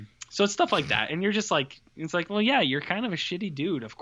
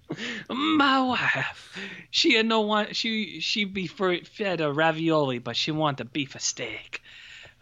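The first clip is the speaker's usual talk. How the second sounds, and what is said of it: Exaggerated put-on Italian accent. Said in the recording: “that accent is unchecked tonight”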